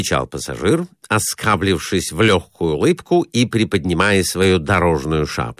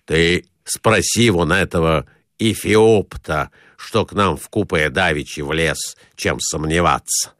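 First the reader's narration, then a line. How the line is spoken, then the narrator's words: Plain. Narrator (Russian): сказал Николай Иванович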